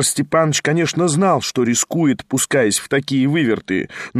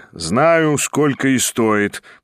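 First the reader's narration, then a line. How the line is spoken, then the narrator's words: Grumbling under breath. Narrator (Russian): проворчал про себя Ставрогин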